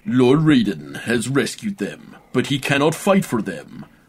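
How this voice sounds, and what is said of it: Put-on American accent. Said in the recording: “I will do it in an American accent.”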